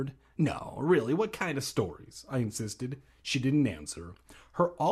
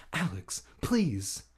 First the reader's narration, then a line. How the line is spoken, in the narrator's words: Hannah pleaded